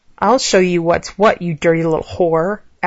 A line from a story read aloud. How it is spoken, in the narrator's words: Alex growled